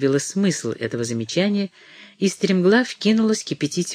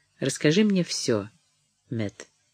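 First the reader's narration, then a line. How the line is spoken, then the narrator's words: Soft. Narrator (Russian): она сказала мягко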